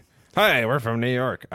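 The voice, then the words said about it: Bad put-on Northeast US accent. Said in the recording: “That's a terrible. That is the worst Northeast accent. ... That's not even Northeast. I don't know what that is, man.”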